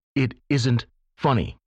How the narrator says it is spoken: I said sternly

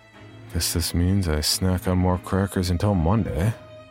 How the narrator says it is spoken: I said to myself miserably

